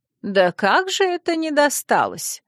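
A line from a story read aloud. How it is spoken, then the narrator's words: Indignant. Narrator (Russian): Возмущенно всплеснула руками Манефа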